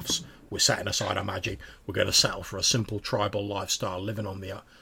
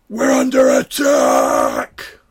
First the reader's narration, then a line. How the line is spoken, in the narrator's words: shouts it across the clearing